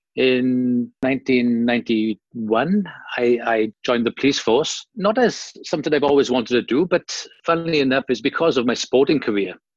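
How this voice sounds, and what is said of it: Welsh accent. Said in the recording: “as you can tell from my accent, I'm not fair dinkum Aussie ... born and bred in Wales, South Wales, in the UK”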